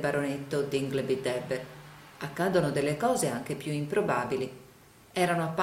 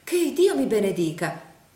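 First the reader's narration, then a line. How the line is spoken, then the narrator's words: Exclaimed. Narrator (Italian): esclamò la signora Nickleby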